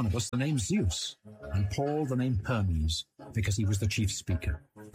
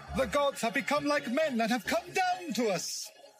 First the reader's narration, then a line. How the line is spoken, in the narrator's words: they started shouting in their own Lycaonian language